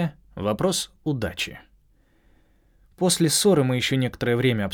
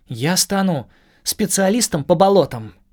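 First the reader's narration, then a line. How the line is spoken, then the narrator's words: Joyful proclamation. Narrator (Russian): радостно провозгласила Куки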